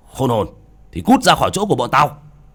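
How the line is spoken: Shouted. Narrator (Vietnamese): Họ nhìn bác cổ mà quát

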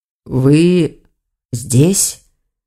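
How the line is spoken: Hoarse voice. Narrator (Russian): охрипшим голосом проговорил он

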